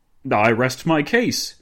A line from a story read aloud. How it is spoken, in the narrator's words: Dinglebrush exclaimed